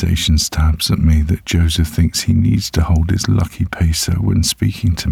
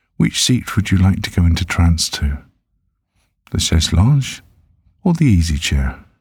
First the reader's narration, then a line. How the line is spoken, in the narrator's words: he says in a light tone